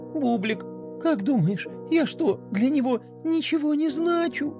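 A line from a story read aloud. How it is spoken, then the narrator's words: Sobbing. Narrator (Russian): Пинки всхлипнула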